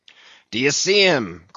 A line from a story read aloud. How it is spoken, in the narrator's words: cried Ahab